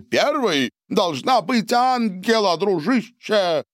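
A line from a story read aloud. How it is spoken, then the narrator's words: Shout. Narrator (Russian): выкрикнул Сильвио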